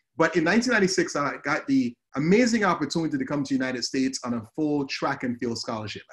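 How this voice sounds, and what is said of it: Caribbean accent. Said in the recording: “you probably hear the accent. So I'm, I'm from the Caribbean.”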